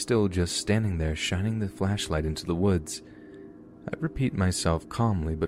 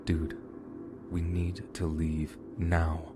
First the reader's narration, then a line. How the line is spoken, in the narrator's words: I said calmly to my friend